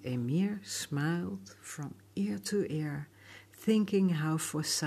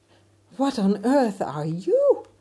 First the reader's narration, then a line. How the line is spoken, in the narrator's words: he cried